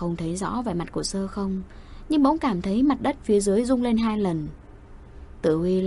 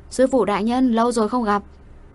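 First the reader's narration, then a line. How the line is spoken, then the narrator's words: Cheerful shout. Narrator (Vietnamese): Tử Huy cười tít mắt, hét lên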